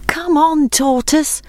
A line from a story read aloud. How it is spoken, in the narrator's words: called his friends anxiously